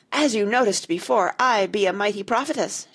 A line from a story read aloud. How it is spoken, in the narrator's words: she cried